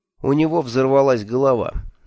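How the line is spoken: Grim explanation. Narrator (Russian): мрачно объяснил

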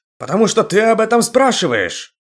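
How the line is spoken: Shouted. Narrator (Russian): Закричал Ингун на Карака

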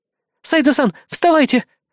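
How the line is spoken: Fussy squeak, small woman. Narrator (Russian): суетливо пищала миниатюрная научная сотрудница

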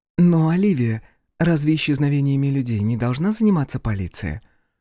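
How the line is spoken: Gentle inquiry. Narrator (Russian): Мягко поинтересовалась она

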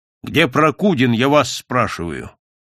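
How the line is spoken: Loud stern repetition. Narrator (Russian): повторил громко и строго

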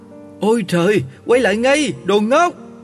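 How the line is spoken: Bleating scream. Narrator (Vietnamese): dê mẹ thét be be

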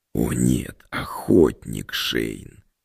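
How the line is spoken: Wolf's hoarse wheeze. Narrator (Russian): прохрипел волк

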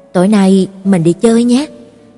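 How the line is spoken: Soft, deep, warm. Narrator (Vietnamese): anh nói nhỏ với em bằng giọng trầm ấm rằng

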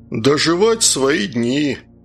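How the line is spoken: Sad smile, grey-haired man. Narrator (Russian): печально улыбнулся седой крепыш

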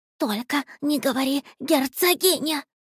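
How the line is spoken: Frightened whisper. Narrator (Russian): испуганно прошептал гость

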